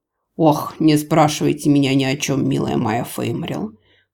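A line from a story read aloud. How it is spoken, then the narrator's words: Weary. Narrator (Russian): устало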